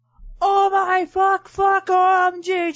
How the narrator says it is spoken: I screamed, orgamming

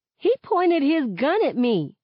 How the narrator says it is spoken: I blurt out

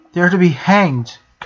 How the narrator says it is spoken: Kairi added, her voice ringing with desperation

